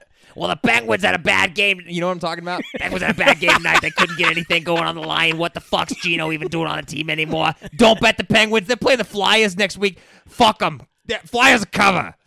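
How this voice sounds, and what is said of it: Yelling sports radio host impression. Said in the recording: “your best impression ... He's just fucking yelling into the mic and smoking”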